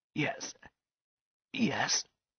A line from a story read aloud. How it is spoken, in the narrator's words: whispered the man